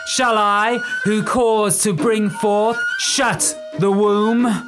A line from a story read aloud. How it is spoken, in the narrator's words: Patricia screamed as she uttered the word womb